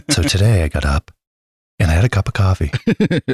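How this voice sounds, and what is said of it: Calm public-radio announcer voice. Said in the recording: “that was your NPR impression”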